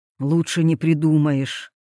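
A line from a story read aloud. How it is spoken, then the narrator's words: Grumbled. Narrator (Russian): буркнул адвокат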